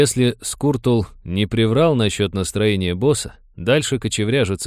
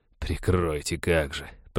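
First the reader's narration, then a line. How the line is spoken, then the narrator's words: Grumbling. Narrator (Russian): проворчал пират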